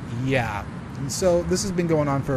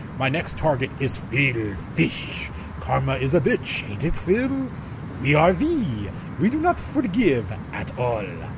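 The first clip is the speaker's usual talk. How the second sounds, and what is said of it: Angry French-German put-on accent. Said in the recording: “went from a normal accent to a, like an angry French German.”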